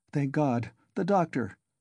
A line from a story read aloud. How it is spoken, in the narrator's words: exclaimed Raskolnikov, relieved